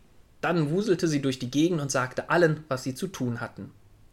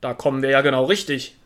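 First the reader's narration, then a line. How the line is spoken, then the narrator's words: Calling from afar. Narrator (German): rief er schon von Weitem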